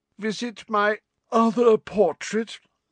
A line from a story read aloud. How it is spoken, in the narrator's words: said in a reedy voice